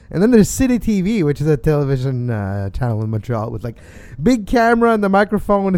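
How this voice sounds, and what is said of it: French accent. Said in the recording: “you have a French accent”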